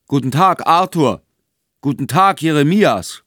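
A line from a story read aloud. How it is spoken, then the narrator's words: Bearded man calling out. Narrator (German): rief der Vollbärtige mit erhobener Hand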